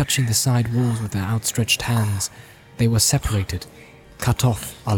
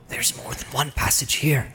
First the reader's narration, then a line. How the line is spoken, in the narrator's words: he whispered with an effort